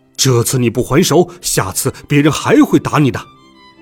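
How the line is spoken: Anxious angry shouting. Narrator (Chinese): 爸爸急得大吼起来

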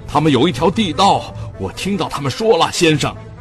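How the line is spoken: Loud shout. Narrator (Chinese): 他……高声大喊

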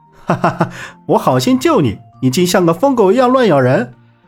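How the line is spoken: Laughing. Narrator (Chinese): 萧平浪笑道

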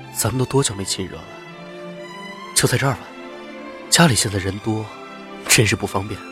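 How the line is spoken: Low, intimate voice. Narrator (Chinese): 低声说着

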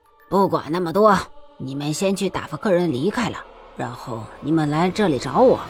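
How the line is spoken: Deep, grave voice. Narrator (Chinese): 何老板沉声道

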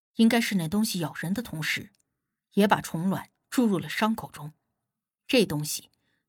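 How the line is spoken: Flat, indifferent. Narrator (Chinese): 无忌淡淡道

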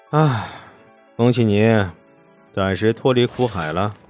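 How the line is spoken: Soft sigh. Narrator (Chinese): 沈梦生…轻叹了一声

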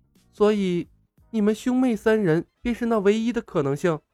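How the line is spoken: Stunned murmur. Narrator (Chinese): 白素贞似是被菩提祖师的神通惊呆了，她喃喃地重复了一遍

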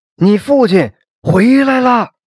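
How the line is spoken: Loud wailing. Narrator (Chinese): 大声嚎啕起来

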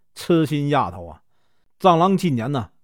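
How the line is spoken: Parents laughing. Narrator (Chinese): 父母便笑着说

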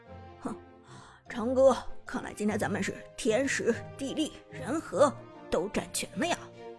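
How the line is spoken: Soft chuckle, low voice. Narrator (Chinese): Lucky 轻轻一笑，低声对苏哲道

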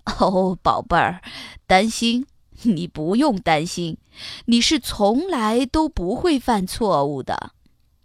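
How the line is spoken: Smiling, soothing. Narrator (Chinese): 爸爸笑着安慰他说

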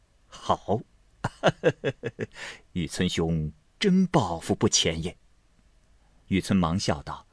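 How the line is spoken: Laughing. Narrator (Chinese): 侍隐走来听见，笑道

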